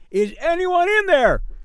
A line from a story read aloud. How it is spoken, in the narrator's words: I yelled